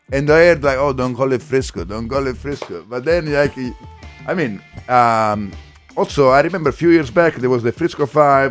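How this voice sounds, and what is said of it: Italian accent in English. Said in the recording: “I'm Italian, you can tell. ... From the accent.”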